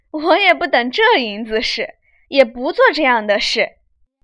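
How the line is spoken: Laughing. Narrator (Chinese): 凤姐听说，笑道

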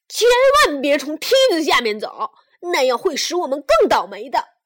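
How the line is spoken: Chubby child shouting. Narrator (Chinese): 小胖墩儿又喊了起来

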